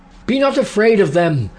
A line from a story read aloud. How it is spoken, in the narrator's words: I shouted